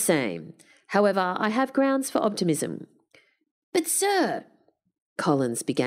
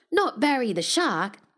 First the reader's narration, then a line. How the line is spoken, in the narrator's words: Collins yelped